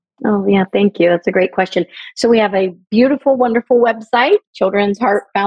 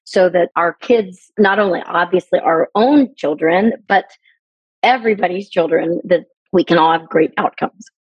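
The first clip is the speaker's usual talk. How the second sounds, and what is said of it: Emotional, choked-up speech. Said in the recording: “it's okay to get emotional.”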